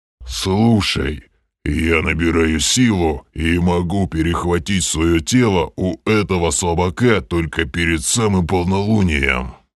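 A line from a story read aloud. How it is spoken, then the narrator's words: Growled. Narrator (Russian): прорычал Грим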